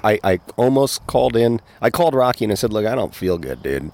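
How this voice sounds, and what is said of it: Hoarse, sick-sounding voice. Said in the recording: “I'm a little hoarse. I'm a little sick.”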